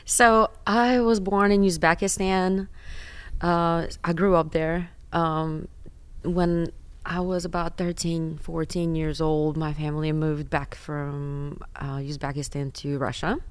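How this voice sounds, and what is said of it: Non-native accent in English. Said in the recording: “you have an accent. Where are you from originally?”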